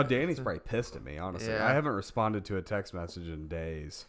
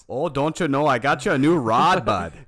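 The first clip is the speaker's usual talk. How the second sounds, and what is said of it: Thick put-on Wisconsin accent. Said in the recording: “He has a very, very thick Wisconsin accent. ... It sounds just like that.”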